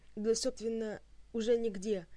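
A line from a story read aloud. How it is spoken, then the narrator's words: Sad. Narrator (Russian): грустно потупилась Хатанг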